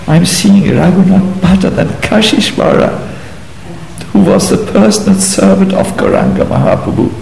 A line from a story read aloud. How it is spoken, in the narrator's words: Sobbing, he said